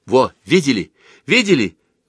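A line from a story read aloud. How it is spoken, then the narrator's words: Exclaiming. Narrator (Russian): воскликнул Слава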